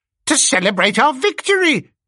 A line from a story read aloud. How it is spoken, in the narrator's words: cried Squealer